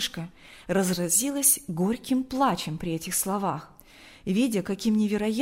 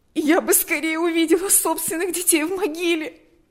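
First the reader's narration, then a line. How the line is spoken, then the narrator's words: Sobbing. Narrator (Russian): рыдала она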